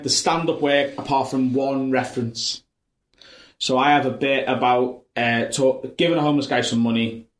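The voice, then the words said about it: Sharp North Liverpool accent. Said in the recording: “I'm North Liverpool ... A very different accent that, like, mine's quite sharp”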